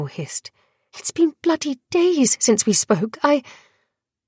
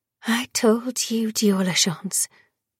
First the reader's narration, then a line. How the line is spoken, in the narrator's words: Rain whispered